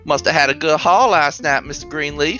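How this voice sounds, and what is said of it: Thick accent, dwarf character voice. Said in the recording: “she says with a thick accent”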